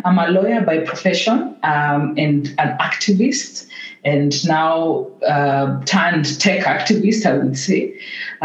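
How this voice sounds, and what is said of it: Kenyan English accent. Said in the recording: “from my accent, most of us can tell I'm a Kenyan”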